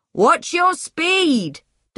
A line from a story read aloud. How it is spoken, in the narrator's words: Doug shouted